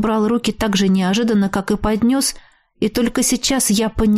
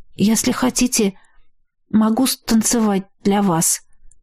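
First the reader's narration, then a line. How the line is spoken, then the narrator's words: Forced out, strained. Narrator (Russian): все же сумела выдавить я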